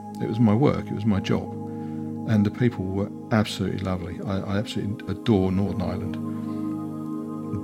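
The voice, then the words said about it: Very English accent. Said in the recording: “I have a very English accent”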